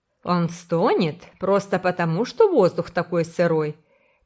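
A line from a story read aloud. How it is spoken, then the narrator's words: Contemptuous snort. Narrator (Russian): презрительно фыркнула тетя Мэри Марая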